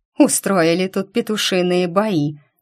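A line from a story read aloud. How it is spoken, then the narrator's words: Grumbling. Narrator (Russian): ворчала Ги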